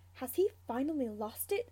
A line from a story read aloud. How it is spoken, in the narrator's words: Sirius mutters to James